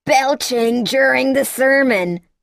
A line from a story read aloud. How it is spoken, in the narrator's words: she bellowed as she skated by, her words followed by a whinnying hoarse laugh that trailed behind her in the air like a long flapping scarf